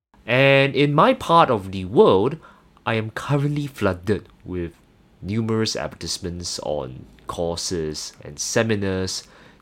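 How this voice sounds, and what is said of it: Singaporean English accent. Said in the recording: “my accent, I actually hail from Singapore”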